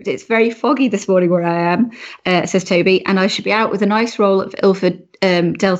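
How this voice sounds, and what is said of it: Froggy, croaky voice from a cold. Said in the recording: “excuse my voice. It's my ... rubbish cold ... Very froggy this morning ... It's very froggy in my throat”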